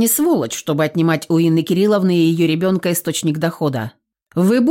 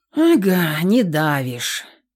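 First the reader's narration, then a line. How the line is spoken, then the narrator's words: Sighing. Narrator (Russian): вздохнул Каверин-младший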